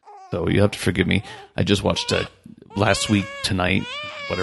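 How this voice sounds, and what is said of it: Usual voice. Nothing is said of it.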